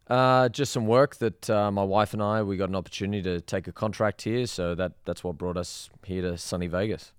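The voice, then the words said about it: Australian accent. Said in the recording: “I'm from Australia, as you can probably tell by the accent.”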